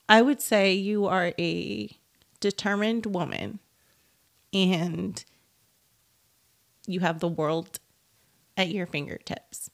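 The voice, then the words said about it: Choked-up, emotional voice. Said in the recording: “I don't know why I'm getting choked up thinking about it.”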